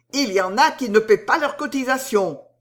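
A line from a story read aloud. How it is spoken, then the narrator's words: Shouting. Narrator (French): cria Tournabien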